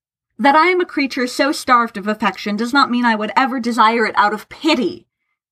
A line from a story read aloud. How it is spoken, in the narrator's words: Tharkay spat